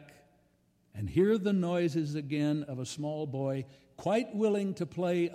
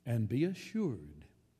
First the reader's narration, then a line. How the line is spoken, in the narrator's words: he says